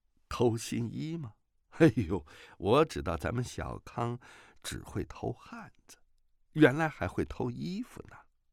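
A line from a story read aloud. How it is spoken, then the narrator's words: Laughing, teasing. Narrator (Chinese): 段正淳笑着说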